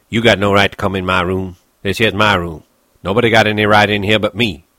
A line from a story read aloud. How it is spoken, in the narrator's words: said sharply